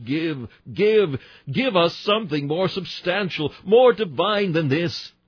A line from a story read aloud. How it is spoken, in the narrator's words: Still our hunger cried like the horse-leech